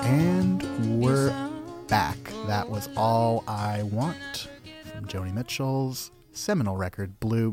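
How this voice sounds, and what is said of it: NPR-style radio announcer voice. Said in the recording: “doing my NPR voice”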